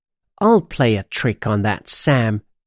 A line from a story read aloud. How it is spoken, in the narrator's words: she hisses